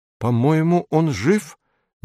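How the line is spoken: Uncertain. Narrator (Russian): неуверенно говорит Эдик

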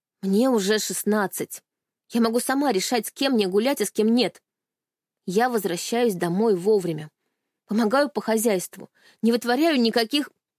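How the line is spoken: Sharp reply. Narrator (Russian): резко ответила я

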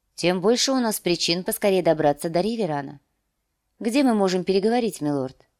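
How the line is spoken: Calm reply. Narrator (Russian): спокойно ответила

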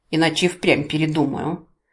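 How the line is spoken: Muffled snap. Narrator (Russian): глухо огрызнулась я

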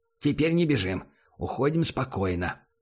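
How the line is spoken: Quiet. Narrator (Russian): так же тихо произнес Догс

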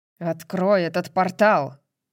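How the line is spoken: Growled in native tongue. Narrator (Russian): прорычал Рандал на их родном языке

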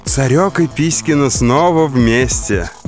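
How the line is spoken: Laughing. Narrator (Russian): Диана засмеялась

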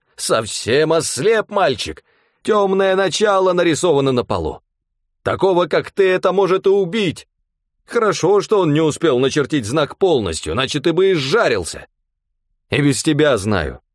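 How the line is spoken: Snapping, stunned and annoyed. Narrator (Russian): Огрызнулся все еще ошеломленный и раздосадованный

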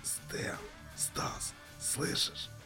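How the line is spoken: Hoarse croak after silence. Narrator (Russian): Захрипел Михаил впервые за долгое время

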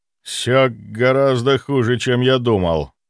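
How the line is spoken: Muffled low voice. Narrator (Russian): глухо произнес

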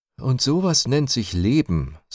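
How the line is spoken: Mother sighing. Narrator (German): seufzte die ehrbare Frau Mama

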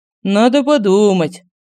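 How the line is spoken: Sighed. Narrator (Russian): вздохнул Семен

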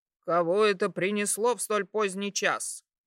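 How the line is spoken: Muffled grumble. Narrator (Russian): Пробурчали с той стороны

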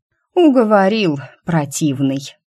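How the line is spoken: Sighing. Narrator (Russian): вздохнула я

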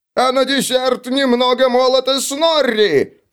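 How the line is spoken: Shouted. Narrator (Russian): прокричал Снорри

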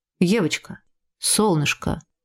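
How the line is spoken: Tender whisper. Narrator (Russian): прошептал папа ласково

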